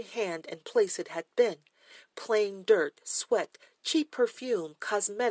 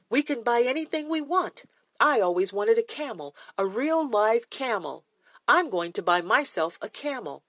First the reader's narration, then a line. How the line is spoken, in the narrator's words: Joey shouted